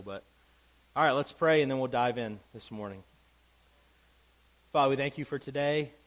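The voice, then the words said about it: Congested, stuffy-nosed voice. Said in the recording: “Apologize for my voice. I got a little bit of congestion, so hopefully it doesn't sound too terrible.”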